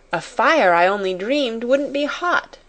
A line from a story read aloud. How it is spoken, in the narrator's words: she cried